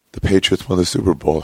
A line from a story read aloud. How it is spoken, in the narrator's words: he mumbled